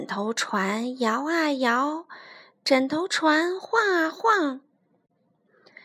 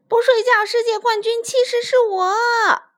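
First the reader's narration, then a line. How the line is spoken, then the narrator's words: Shouting. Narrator (Chinese): 霹雳鼠也大叫着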